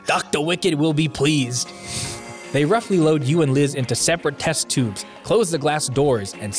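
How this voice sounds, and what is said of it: Usual voice. Nothing is said of it.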